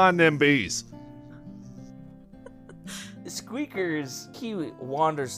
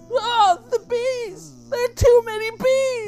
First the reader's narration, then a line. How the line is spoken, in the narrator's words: bystander screams